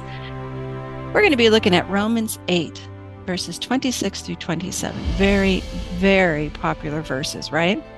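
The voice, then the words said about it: Rough, congested voice. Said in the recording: “my voice is a little rough, it's because I've been sick and finally getting out of it, but the congestion remains”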